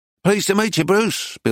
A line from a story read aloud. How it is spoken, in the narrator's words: Bill said hastily